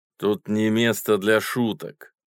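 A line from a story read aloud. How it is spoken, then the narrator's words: Stern. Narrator (Russian): строго сказал человек в боцманской шапке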